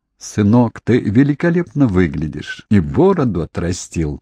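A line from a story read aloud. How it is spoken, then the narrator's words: Laughing. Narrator (Russian): засмеялась Кейт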